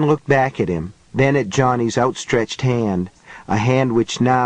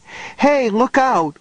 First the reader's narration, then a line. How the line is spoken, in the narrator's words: Cynthia cried